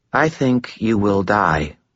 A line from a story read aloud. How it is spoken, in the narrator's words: she said, her tone even, without inflection